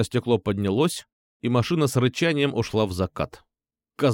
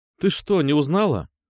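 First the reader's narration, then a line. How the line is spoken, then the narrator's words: Innocent question. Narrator (Russian): Невинным голосом спросил я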